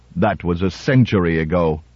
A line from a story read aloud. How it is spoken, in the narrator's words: Smythe Robertson hesitated, then said icily